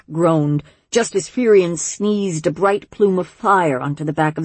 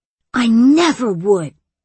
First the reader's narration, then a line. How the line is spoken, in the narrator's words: Firion gasped